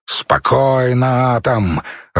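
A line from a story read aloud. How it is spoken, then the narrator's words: Growled command. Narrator (Russian): рыкнул пьющий медведь и скомандовал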